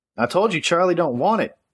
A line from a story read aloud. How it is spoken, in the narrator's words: Amber yelled